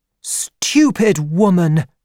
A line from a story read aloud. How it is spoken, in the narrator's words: she cried